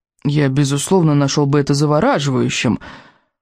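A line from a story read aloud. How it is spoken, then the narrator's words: Groaned. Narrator (Russian): простонал Рыбьенок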